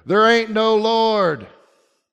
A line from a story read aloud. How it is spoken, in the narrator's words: He'd shout back at her